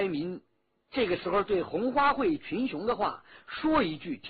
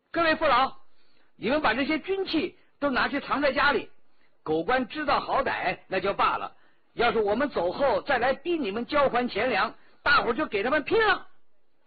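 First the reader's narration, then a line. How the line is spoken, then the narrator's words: Calling out. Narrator (Chinese): 徐天红叫道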